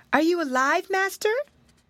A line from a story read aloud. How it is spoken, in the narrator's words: called in an anxious voice